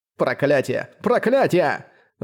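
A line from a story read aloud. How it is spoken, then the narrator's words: Roaring turtle. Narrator (Russian): взревела черепаха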